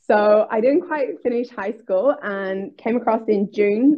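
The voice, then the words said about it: Northern Irish accent. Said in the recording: “I moved from Northern Ireland, so hence I've got a bit of a funny accent.”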